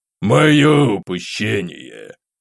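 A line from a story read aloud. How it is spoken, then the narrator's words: Emperor's sigh. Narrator (Russian): вздохнул император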